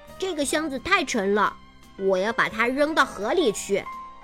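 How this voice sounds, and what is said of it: Deliberately loud voice. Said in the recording (Chinese): “故意用很大的声音说”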